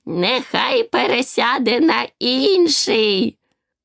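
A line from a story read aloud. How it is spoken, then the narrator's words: Hoarse voice. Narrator (Ukrainian): хрипкий голос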